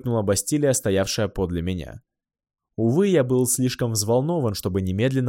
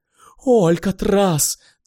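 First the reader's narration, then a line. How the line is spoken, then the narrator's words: Breathless awe. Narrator (Russian): трепетно выдохнула Бастилия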